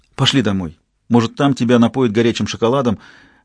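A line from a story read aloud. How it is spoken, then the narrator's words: Calm suggestion. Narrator (Russian): предложила она как спокойно прозвучал ее голос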